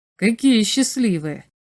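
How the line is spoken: Sighing. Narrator (Russian): вздохнул Князев

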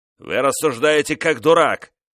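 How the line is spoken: Father's rude shout. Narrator (Russian): грубо крикнул отец

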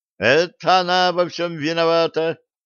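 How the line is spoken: Girls yelling in unison. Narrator (Russian): дружно заорали девочки

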